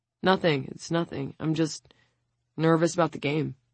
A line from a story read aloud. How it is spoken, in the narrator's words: William mumbles